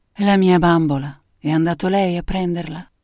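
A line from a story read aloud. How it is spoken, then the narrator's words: Melodious voice. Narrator (Italian): Mary Alton, che disse con la sua voce melodiosa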